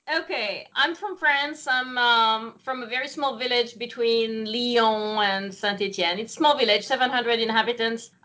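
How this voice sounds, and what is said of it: Non-American, French-sounding accent. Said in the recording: “your accent, you don't sound like you're from Massachusetts”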